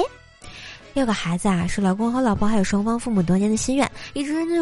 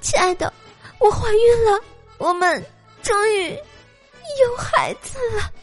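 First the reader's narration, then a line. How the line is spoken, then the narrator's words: Crying wife. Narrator (Chinese): 老婆 哭着说道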